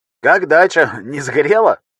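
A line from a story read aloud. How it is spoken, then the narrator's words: Chuckle over phone. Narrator (Russian): хохотнул в трубку его старый друг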